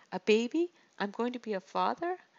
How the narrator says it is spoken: Mariah laughed

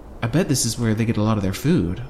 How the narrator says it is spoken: said

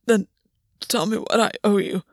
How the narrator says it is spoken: Gwyn rasped

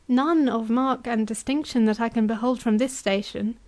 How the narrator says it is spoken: said Rebecca

